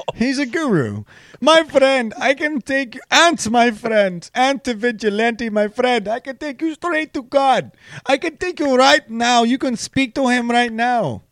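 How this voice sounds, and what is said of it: Put-on Indian accent. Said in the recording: “racist ... Voice ... he's Indian ... this bullshit accent”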